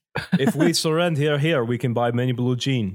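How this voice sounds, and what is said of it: Bad put-on Russian accent. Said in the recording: “I am doing bad Russian accent. I can't do Russian.”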